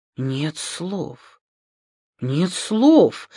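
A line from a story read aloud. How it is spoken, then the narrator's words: Bewildered speech. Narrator (Russian): растерянно говорил Юрий Юрьевич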